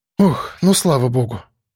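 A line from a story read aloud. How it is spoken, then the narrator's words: Relieved exhale. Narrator (Russian): с облегчением выдохнула Вера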